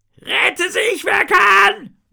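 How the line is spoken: Roaring. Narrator (German): brüllt einer von ihnen

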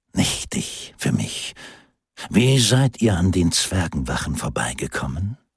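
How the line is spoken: Gentle inquiry. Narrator (German): erkundigte sich Amanoras sanft

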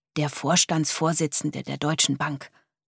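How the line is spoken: Very quiet answer. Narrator (German): antwortete so leise es ging

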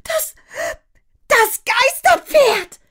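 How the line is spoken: Screamed. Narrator (German): schrie Mia

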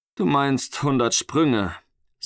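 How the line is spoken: Sighing father. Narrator (German): seufzte sein Vater

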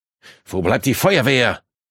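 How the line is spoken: Calling out. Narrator (German): rief Snyder

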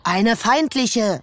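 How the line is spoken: Called out. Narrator (German): rief Henry

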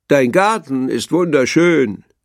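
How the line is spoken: Calling out. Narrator (German): rief Kröte

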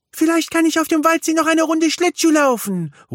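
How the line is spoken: Calls out. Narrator (German): ruft Milli

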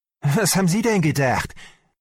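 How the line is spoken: Shouting at someone. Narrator (German): schrie mich Selnow an

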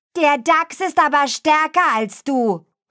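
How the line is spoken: Hare calling from behind. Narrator (German): rief der Hase von hinten

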